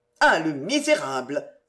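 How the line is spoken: Exclaiming. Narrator (French): s'écria Antoine

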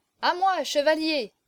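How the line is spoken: Shouting. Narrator (French): cria-t-il

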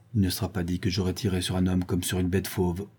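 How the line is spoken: Murmured. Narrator (French): murmura-t-il

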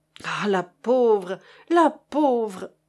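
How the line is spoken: Moaning. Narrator (French): gémissait Chéri Bibi

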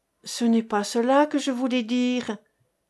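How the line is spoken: Dreamy voice. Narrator (French): reprit-elle d'une voix rêveuse

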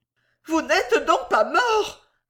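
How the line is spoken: Nervous exclamation. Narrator (French): s'écria la nerveuse personne

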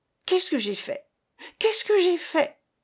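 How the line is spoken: Terrified cry. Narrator (French): s'écria l'Arlésienne au comble de l'épouvante

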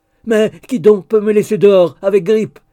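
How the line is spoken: Shouting. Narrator (French): cria-t-il

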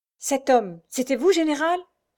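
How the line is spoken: Enthusiastic, admiring cry. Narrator (French): s'exclama Roger dans un cri d'enthousiasme et d'admiration

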